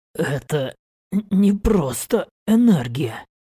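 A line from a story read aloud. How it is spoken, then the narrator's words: Whisper. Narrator (Russian): прошептал я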